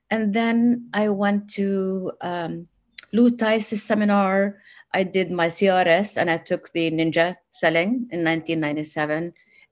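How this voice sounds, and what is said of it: Noticeable accent. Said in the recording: “my accent... I have an accent”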